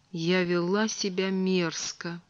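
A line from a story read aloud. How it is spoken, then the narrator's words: Mumbled. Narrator (Russian): Виш пробормотала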